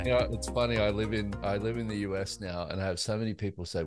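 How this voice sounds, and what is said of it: Australian accent. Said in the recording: “Your accent puts me in a good mood ... Like he's Aussie.”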